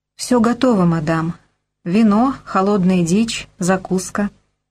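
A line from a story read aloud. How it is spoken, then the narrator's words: Even, level report. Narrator (Russian): ровным голосом доложила она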